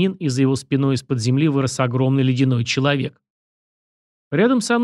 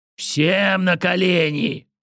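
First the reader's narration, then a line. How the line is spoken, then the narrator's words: Thundering command. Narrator (Russian): прогремело над площадью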